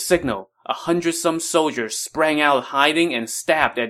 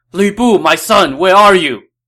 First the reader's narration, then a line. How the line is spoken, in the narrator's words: Dong Zhuo cried out in desperation